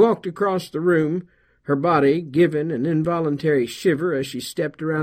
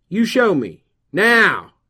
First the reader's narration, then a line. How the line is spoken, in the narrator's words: He raised his voice